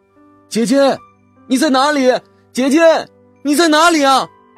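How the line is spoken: Loud shouting. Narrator (Chinese): 我又大声喊叫

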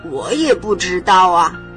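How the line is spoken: Shouting. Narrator (Chinese): 菲菲叫着说

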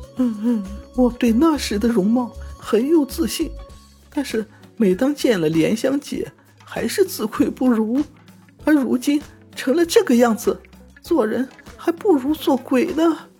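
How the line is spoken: Crying. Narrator (Chinese): 燕儿对镜哭着说

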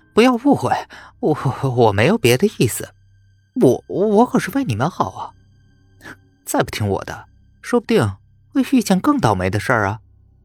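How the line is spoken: Hasty, ingratiating. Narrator (Chinese): 连忙换上一副笑脸说

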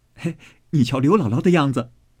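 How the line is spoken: Laughing. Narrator (Chinese): 宝玉 向林黛玉笑道

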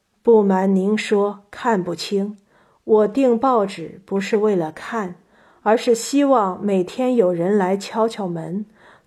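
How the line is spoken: Sighing, resigned old man. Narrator (Chinese): 老人叹了口气，无奈地说

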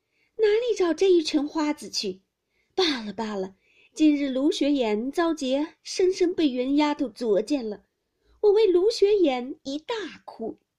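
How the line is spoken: Laughing. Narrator (Chinese): 黛玉笑道

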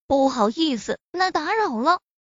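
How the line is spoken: Laughing. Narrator (Chinese): 林若风笑着说道

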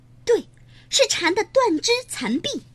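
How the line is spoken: Little ant crying out. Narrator (Chinese): 一只小蚂蚁率先叫了起来

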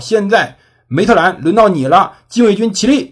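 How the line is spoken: Shouted command. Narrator (Chinese): 向旅长喊道

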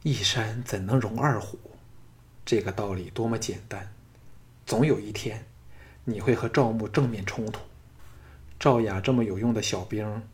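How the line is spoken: Sighing. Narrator (Chinese): 雅夫人叹道

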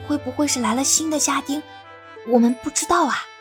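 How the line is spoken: Whispering. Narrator (Chinese): 他小声的在云溪身边说

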